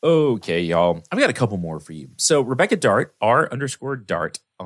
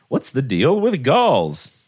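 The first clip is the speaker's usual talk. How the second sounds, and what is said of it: Bad Jerry Seinfeld impression. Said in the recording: “worst Jerry Seinfeld impression ever impressed”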